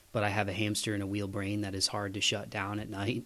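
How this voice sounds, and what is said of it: Sick, smooth low radio-like voice. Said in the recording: “my voice sounds cooler. I've got a little bit more of like a smooth, jazzy kind of, you know, late night smooth jazz radio voice ... I've been sick for almost 2 weeks”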